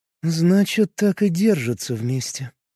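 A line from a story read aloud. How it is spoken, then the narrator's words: Muttered. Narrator (Russian): пробормотала Лейсав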